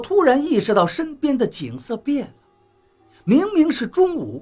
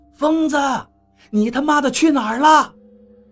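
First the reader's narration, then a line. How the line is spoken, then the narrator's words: Shouting. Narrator (Chinese): 王八嘴里喊着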